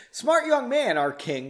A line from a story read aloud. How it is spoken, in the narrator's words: the general said much more loudly